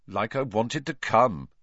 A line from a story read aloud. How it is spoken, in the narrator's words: said Harry coldly